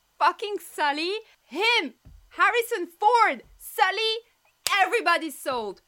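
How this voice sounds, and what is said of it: Screaming excitedly. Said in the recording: “Sorry, I'm screaming.”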